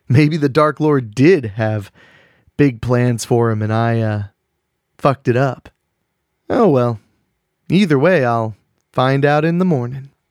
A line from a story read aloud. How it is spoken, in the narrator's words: he laughed